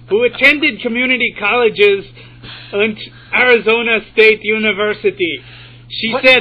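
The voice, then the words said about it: Put-on German-Austrian accent. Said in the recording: “Which accent are you doing here? Is this German? ... Shooting for German. ... Maybe a little bit of Austrian creeping in.”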